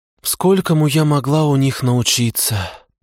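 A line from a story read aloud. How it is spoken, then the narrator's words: Sighing fox. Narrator (Russian): вздохнула лисица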